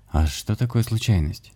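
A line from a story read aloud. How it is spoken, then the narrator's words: Sad smiling shaman. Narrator (Russian): грустно улыбнулся шаман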